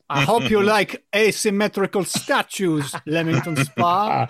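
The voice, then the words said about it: Put-on Spanish-German accent. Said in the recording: “Was that French? ... That was a Spanish German. ... Sorry about the accent”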